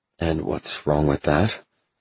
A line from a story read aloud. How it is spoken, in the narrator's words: I asked with a grunt